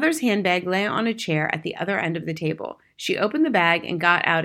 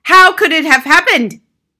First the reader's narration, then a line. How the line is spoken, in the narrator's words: yelled